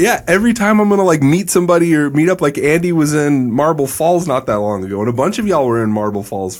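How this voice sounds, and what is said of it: Usual voice. Nothing is said of it.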